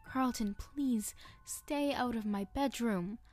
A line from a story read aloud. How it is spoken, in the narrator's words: I begged